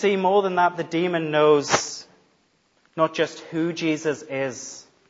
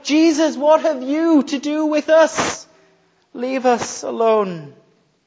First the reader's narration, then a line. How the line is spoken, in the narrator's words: he fell down and he cried out